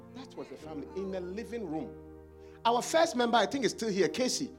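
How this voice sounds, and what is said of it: Ghanaian accent. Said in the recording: “Is it because I have an accent? ... where is your accent from? I said, from Ghana.”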